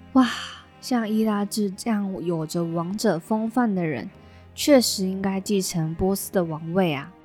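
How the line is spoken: Amazed exclamation. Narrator (Chinese): 士兵忍不住惊叹

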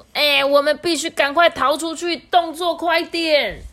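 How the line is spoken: Urgent shout. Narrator (Chinese): 沙欢就大喊说

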